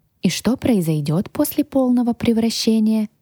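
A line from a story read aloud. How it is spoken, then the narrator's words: Sighing question. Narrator (Russian): вздохнув, уточнила я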